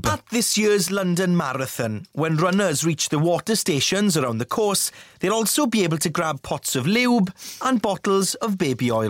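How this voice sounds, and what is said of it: Welsh accent. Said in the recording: “Stefan Powell off the news ... In that perfect Welsh accent of his.”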